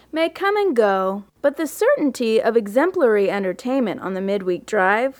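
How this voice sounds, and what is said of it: Affected put-on accent. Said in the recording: “affecting an accent”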